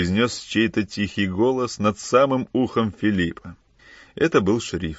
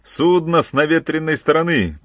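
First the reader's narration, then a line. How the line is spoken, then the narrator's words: Shouted. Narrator (Russian): крикнул Кранц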